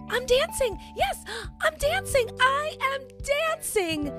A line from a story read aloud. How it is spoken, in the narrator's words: Gerald cried